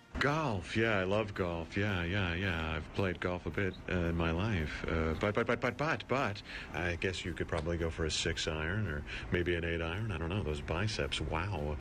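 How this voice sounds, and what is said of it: Jeff Goldblum impression as golf caddy. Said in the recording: “Jeff Goldblum, who has one of the most distinctive deliveries in showbiz ... impersonation of what Goldblum would sound like as a golf caddy is spot on”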